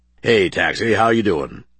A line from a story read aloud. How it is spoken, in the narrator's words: Max replied gruffly